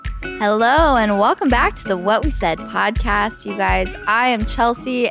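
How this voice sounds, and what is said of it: Slightly froggy, hoarse voice. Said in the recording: “I'm a little sick ... My voice is a little froggy today.”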